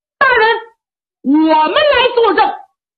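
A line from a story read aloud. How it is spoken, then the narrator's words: Loud shout. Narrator (Chinese): 有人高喊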